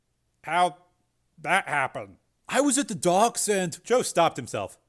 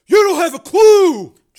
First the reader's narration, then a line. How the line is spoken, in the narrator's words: Joe shouted